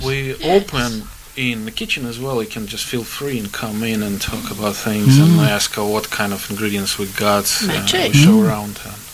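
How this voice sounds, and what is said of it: Lovely rounded accent. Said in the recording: “accent ... that lovely rounded accent ... he's got”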